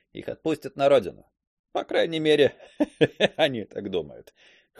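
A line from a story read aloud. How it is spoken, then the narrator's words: Young man chuckling. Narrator (Russian): хохотнул юноша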